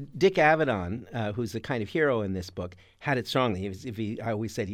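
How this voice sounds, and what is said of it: Usual voice. Nothing is said of it.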